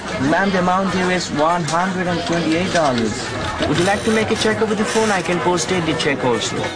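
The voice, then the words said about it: Indian English accent. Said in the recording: “their Indian accents were not so warmly received by customers calling in from the US and Europe”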